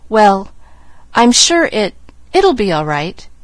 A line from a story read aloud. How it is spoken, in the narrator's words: Nancy managed to stammer